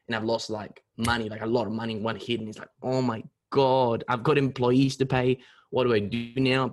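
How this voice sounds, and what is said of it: Chilean Spanish accent. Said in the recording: “this beautiful accent ... It's a weird accent ... It's from Chile”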